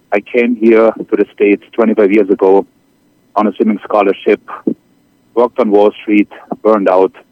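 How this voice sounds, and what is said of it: German accent. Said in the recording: “as you can tell by my accent, I'm originally from Germany.”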